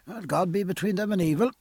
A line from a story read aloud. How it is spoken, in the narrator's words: said Stephen